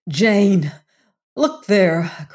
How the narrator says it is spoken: cried Venters in despairing grief

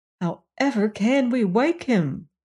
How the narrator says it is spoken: they said

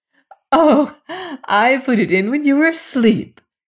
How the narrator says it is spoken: she said, laughing

